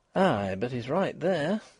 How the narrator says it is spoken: breathed Mrs

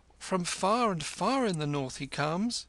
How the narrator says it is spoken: cried Kim

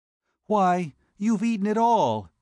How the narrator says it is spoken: she exclaimed

